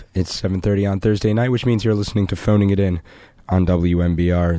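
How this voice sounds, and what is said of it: Sick-sounding voice. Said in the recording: “I'm a little sick, as you can probably hear by my voice.”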